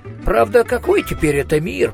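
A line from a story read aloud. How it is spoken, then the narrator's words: Mutter. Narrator (Russian): пробормотал Коэн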